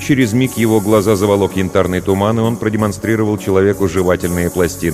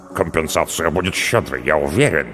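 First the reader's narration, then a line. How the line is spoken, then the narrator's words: Mumbling. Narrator (Russian): пробормотал Харальмара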